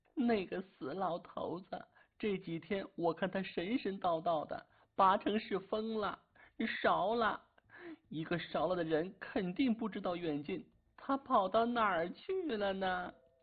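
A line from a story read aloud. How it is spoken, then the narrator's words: Crying. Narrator (Chinese): 钱婶哭道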